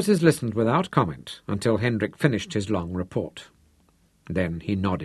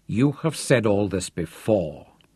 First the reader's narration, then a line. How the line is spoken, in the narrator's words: Hendrik growled